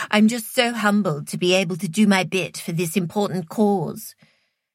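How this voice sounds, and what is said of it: Posh put-on accent. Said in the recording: “She put on a posh accent.”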